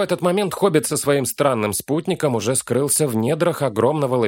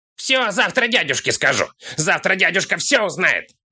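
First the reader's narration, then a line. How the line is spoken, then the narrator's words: Offended wailing. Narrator (Russian): Завопил обиженный Кролл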